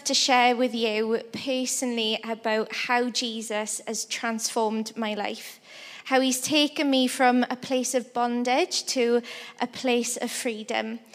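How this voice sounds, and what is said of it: Welsh accent. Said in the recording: “So I'm from a little country in Wales. That's part of the UK. That's where the accent is from. So I'm not fully Welsh.”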